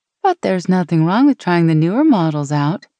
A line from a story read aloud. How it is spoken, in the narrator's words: Tammy laughed